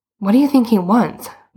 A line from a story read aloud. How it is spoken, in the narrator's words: Boots said nervously